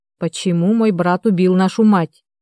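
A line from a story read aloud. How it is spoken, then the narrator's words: Through gritted teeth. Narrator (Russian): процедила тетя Майя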